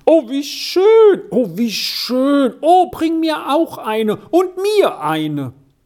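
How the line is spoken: Many voices calling. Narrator (German): rief es von allen Seiten

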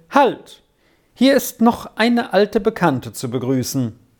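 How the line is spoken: Uncle calling out. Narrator (German): rief der Onkel

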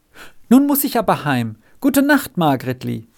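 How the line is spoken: Sudden call. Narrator (German): rief er plötzlich

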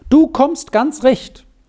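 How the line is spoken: Calling out. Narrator (German): rief sie ihm zu

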